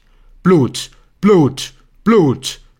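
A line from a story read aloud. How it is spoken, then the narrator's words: Roar from outside. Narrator (German): brüllt es von draußen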